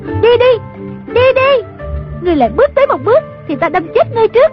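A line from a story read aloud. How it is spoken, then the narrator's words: Shouted. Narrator (Vietnamese): A Tử la lên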